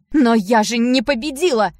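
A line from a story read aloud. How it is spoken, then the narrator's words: Panicked shout. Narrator (Russian): в панике закричала Ева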